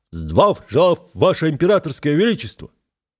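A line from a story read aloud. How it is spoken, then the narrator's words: Hearty group bark. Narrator (Russian): рюлики, хорошо гаркнули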